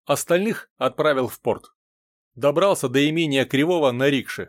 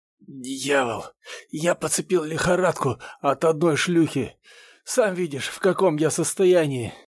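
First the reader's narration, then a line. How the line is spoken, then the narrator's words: Quiet sick rasp. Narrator (Russian): тихо прохрипел больной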